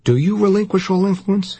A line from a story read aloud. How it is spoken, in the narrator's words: He cried